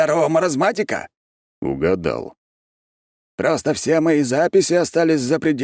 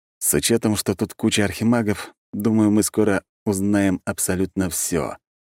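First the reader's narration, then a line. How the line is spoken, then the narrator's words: Gloomy. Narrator (Russian): мрачно добавил я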